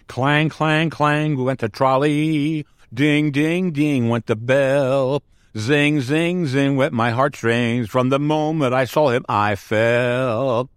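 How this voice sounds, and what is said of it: Sung imitation of another person's voice. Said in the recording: “Not Judy Garland, folks, but it's my impersonation on that song.”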